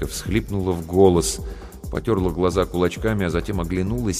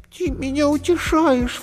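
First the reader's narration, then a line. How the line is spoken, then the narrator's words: Sobbing. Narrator (Russian): всхлипнула зайка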